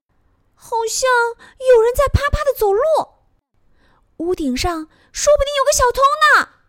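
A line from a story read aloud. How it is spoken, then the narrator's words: Little mouse crying out. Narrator (Chinese): 小老鼠喊了起来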